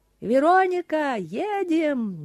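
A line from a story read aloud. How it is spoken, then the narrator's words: Shouting while running. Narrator (Russian): на бегу кричал ей Отис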